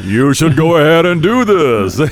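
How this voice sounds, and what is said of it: Big booming radio announcer voice. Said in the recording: “Mine sounds like Ted Baxter on the Mary Tyler Moore Show ... He's got that big radio voice.”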